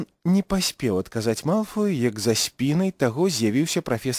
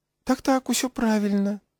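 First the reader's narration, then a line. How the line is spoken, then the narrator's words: Beaming smile. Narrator (Belarusian): промністо усміхнуўся прафесар Флітвік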